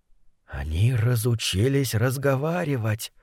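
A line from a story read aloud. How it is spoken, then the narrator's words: Menacing whisper. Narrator (Russian): прошептал Фасоль опасно для жизни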